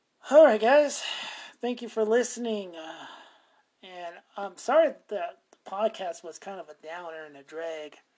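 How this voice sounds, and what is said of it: Hoarse, strained voice. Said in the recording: “I'm losing my voice now”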